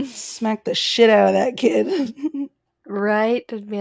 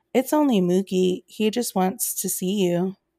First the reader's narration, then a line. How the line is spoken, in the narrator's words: my cousin would calmly say